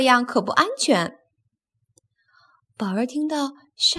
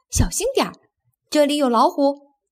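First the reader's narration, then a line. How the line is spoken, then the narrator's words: Bird calling out. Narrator (Chinese): 一只啄木鸟对他叫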